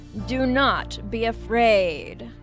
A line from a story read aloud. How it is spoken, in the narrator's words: boomed the giant golden fish